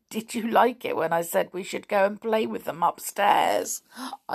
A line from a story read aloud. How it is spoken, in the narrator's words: chuckled